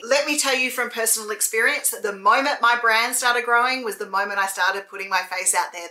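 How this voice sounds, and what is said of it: Noticeable accent, fast speech. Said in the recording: “People think I talk too fast. People can't hear me. They can't understand me. I have an accent.”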